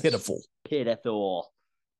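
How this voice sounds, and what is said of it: Imitates another person's voice. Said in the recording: “my best Schmidt impersonation.”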